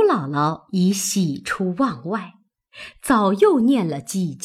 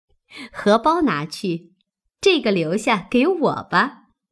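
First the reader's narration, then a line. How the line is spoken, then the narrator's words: Smiling. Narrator (Chinese): 又笑道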